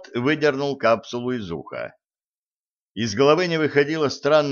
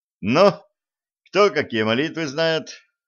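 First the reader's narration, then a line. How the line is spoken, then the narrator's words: Cheerful question. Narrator (Russian): бодрым тоном спросил Блат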